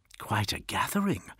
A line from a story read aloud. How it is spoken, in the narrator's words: whispered Julius, and Solomon heard an eager edge to his voice